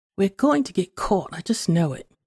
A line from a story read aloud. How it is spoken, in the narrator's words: said